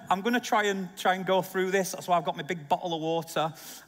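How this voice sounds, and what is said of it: Hoarse, failing voice. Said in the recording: “my voice is been not very well this week ... my voice is going ... I've been sucking cough sweets for the last few days”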